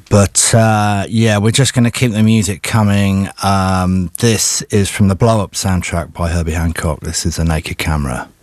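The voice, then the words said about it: Hoarse voice from a cold. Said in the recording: “I've got a bit of a cold and I think I'm losing my voice.”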